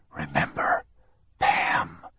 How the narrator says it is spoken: he whispered to the dying body

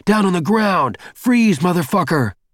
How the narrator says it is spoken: Every guy in a uniform was screaming

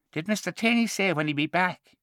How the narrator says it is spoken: asked in a husky falsetto

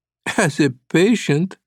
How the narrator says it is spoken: Sasha said, laughing

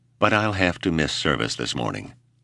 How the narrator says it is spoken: she sighed

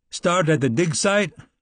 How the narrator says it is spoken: Henry shouted

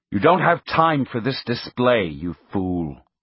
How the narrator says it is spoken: he said in a severe tone

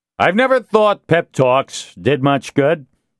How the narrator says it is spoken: Castillo said loudly

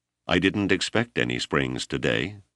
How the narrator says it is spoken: Overpeck said calmly

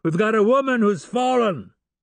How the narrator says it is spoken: shouted again

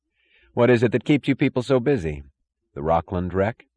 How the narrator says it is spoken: Eddie sighed

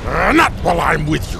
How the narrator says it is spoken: growled Turl

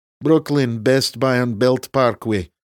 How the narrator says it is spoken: Reese said in his best Eastern European accent

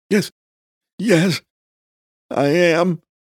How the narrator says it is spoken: Agnan gasped

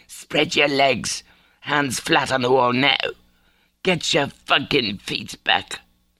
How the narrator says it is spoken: Tessa harshly whispering

